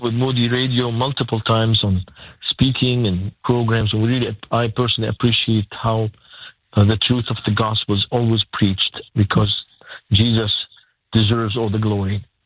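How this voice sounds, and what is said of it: Lebanese accent. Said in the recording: “hearing you say that with your Lebanese accent”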